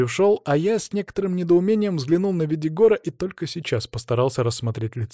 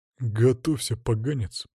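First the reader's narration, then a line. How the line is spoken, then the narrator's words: Growled. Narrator (Russian): прорычал Видигор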